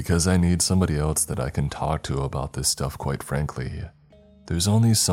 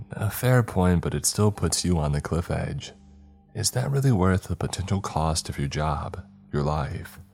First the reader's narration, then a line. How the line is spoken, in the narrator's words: Larry pauses, sighing softly before replying